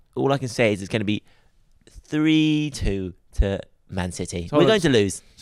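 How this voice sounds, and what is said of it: Posh impression of Eddie Howe. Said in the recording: “What's Eddie Howe's accent? ... Eddie Howe is a quite a posh character.”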